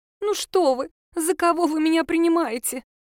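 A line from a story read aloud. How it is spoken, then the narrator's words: Pitiful voice, stranger woman. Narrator (Russian): Жалостным голосом отозвалась незнакомка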